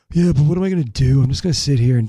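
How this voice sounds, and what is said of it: Weird surfer-like imitation of another person. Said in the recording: “I'm kind of giving you like a weird surfer vibe ... That was a bad impersonation ... My accent wasn't even there”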